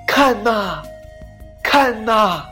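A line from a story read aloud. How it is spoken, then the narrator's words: Shouting from mountaintop. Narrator (Chinese): 它站在山顶上大喊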